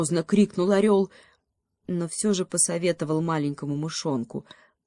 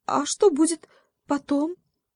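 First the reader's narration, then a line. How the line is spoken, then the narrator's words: Timid little mouse. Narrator (Russian): робко спросил мышонок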